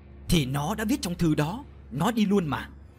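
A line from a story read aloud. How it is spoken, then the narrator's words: Irritable snap. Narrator (Vietnamese): Ông Đình gắt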